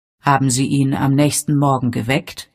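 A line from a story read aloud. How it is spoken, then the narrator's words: Plain. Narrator (German): fragte Father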